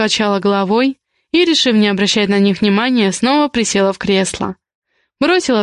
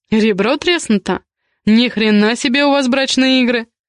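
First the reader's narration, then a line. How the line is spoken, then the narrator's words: Smirking grunt. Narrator (Russian): хмыкнул Матвей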